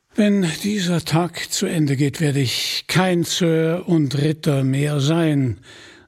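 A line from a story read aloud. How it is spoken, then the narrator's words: Sighing. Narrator (German): seufzte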